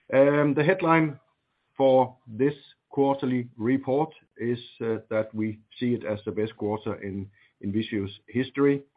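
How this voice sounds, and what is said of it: Slightly rusty voice. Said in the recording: “I have a slight cold today, so I apologize if my voice is a little rusty.”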